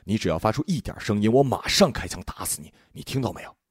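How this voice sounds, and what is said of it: Whispered threat. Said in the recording (Chinese): “他在他耳边小声说”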